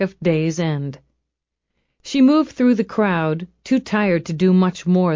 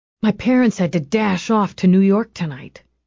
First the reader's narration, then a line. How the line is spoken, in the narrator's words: he whispered